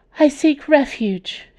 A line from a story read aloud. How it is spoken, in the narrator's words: gasped